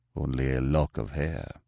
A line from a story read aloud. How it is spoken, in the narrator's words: murmured the nobleman